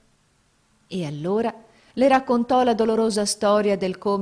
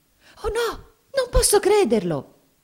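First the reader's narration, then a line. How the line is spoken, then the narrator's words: Frightened exclamation. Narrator (Italian): esclamò Mamie impaurita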